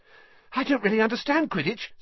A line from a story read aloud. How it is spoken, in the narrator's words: said Colin, breathlessly